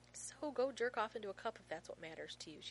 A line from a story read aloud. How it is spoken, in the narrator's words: she says evenly